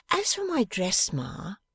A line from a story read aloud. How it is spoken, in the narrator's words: returned Bella, merrily